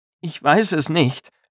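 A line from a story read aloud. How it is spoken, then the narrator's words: Hoarse sobbing. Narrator (German): schluchzte er mit heiserer Stimme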